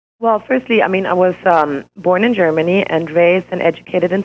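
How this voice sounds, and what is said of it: Slightly hoarse voice. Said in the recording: “I'm plagued with allergies ... I'm a little hoarse”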